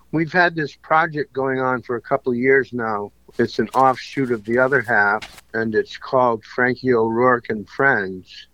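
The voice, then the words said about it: Hoarse, strained voice. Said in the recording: “Got a little laryngitis.”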